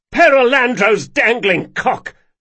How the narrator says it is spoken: Locke yelled

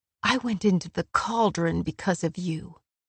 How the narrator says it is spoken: she said softly

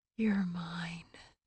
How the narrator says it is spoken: Nesta waited until he'd thrust again, driving as deep into her as he'd ever gone, and whispered

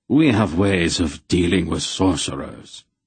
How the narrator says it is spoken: he said grimly

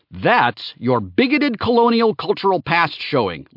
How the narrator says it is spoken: Laertes shouted off screen

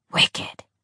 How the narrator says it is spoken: Jordan whispered excitedly

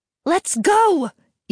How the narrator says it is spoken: Iria yelled

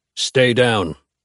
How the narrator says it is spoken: Cash grunts

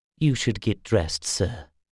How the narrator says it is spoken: Darren said gently

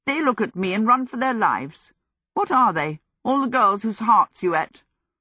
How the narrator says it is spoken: Hal laughed

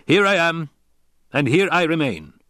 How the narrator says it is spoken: he barked

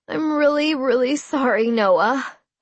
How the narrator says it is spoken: I whimpered

